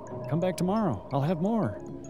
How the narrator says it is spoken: He shouted after me

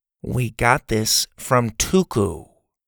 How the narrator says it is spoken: Bo said slowly

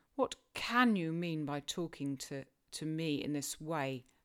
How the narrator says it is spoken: thundered Heathcliff with a savage vehemence

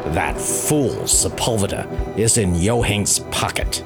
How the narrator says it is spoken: he growled at the policeman

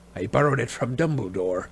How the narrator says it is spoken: growled Moody

